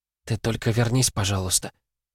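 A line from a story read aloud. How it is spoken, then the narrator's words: Secret whisper. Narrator (Russian): шепнула так, чтобы не слышал никто, кроме Ивлада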